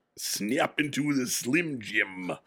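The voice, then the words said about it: Macho Man Randy Savage impression. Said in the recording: “Macho Man. That was my impression.”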